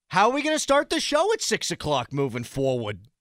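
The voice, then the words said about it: Imitates another person's voice. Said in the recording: “That's my Mike Sullivan impression.”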